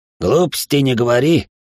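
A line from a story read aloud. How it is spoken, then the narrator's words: Dismissive snort. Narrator (Russian): фыркнул Рон Тиан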